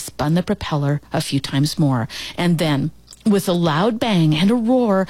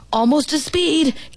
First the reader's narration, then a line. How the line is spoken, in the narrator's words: Gibby's dad hollered